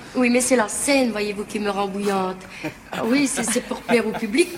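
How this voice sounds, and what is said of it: Liège Belgian French accent. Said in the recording (French): “on est à Liège ... Vous en voulez de l'accent?”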